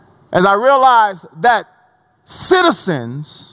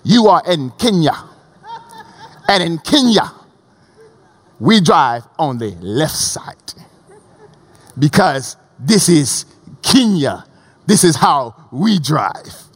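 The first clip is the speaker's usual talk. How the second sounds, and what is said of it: Bad put-on African accent. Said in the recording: “Bad African accent”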